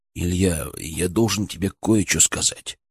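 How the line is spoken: Nervous whisper. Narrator (Russian): прошептал он, и его усы нервно подрагивали

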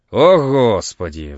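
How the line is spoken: Mocking sigh. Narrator (Russian): вздыхает он, насмешливо

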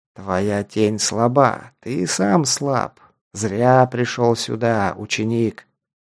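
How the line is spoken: Declaimed. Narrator (Russian): продекламировал Громила

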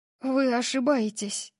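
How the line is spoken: Breathed out. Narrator (Russian): выдохнула я

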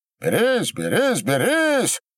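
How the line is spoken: Shouting. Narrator (Russian): кричал Корнило

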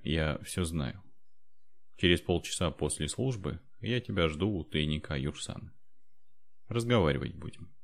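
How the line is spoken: Quiet. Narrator (Russian): тихо сказал

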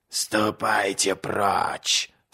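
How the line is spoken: Hoarse whisper. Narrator (Russian): сказала она хриплым шепотом

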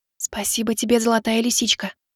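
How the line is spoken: Maid's soft whisper. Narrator (Russian): тихо шептала служанка

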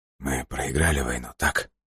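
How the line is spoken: Forced out, strained. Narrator (Russian): выдавил из себя он

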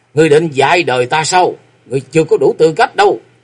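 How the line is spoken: Roaring. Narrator (Vietnamese): Châu Kiếm Hồn gầm lên

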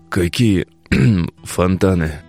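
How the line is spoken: Hoarse question. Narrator (Russian): Откашлявшись, хрипло переспросил Тарас

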